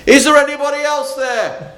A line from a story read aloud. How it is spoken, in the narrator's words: There was a tense pause before the tourist shouted